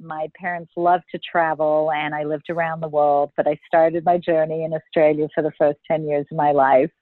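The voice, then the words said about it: Slight Australian accent. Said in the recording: “people are going to wonder about that accent... born in Melbourne, Australia, so you may hear a tinge of an accent, probably not as much as I would like”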